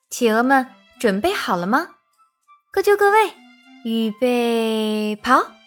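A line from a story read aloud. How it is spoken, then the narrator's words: Squawking pelican. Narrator (Chinese): 一只唐鹅，它呱呱叫着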